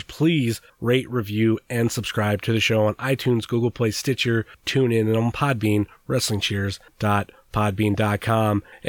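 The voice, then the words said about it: Unwell, sick-sounding voice. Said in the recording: “I'm not feeling really good right now. You can probably hear it in my voice”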